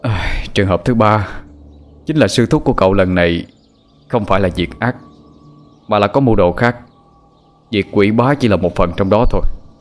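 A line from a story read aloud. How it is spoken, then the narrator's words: Smiling, sighing. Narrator (Vietnamese): Cổ Phong nhẹ mỉm cười, thoáng thở dài cất giọng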